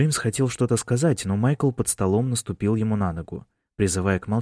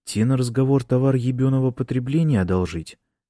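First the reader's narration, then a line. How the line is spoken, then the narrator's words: Plain. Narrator (Russian): спросил Бран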